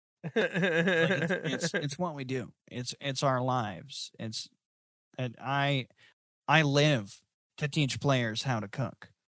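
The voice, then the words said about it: Playful made-up character voice. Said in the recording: “That's a fun voice too. I came up with that like on the spot.”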